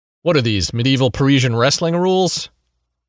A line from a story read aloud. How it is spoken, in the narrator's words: Pete grunts